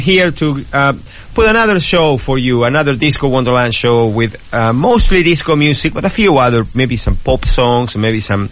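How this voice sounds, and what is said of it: Speaks with a recognizable accent. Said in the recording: “hopefully you recognize my accent out there”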